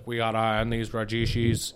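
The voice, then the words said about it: Poor impression of a politician. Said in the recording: “That's a terrible impression. ... That was more Nixon”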